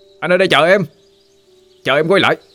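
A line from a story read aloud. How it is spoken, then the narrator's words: Shouting from afar. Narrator (Vietnamese): anh Quy hét lên một câu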